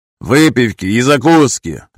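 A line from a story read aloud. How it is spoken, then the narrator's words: Loud command. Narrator (Russian): громко приказал один из новоприбывших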